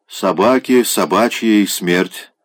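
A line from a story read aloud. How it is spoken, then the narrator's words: Gloomy. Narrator (Russian): мрачно проговорил Савелий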